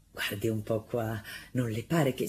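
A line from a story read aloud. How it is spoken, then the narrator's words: Satisfied tone. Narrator (Italian): con tono soddisfatto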